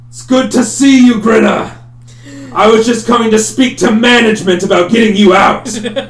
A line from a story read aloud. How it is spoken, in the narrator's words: He turns back and he shouts back